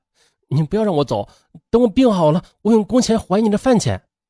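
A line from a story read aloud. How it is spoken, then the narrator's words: Desperate pleading. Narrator (Chinese): 少年董丽苦苦哀求老板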